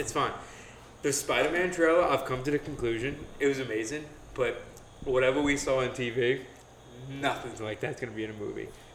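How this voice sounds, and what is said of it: Out of breath, breathless speech. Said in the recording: “You're already super sweaty and out of breath.”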